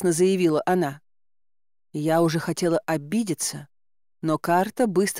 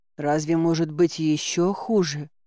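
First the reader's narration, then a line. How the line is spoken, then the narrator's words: Moaning. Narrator (Russian): простонала я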